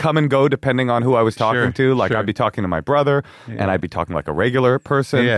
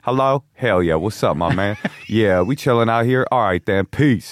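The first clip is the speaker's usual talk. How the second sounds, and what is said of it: Put-on Southern Black American accent. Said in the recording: “I had a Southern accent... Was it a Southern black accent?... Oh yeah, it was a Southern black accent.”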